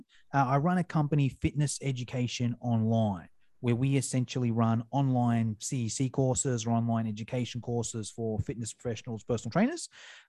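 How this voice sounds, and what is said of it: Australian accent. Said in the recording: “I'm from Australia, as you can probably tell by the accent.”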